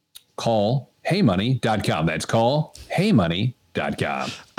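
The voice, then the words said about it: Radio announcer voice. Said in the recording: “the little radio announcer voice”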